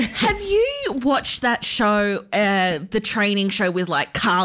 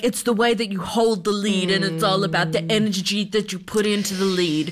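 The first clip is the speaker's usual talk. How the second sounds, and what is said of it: Imitated accent of another person. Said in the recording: “That's me trying to do my Carlos accent. ... It's a little questionable in some areas”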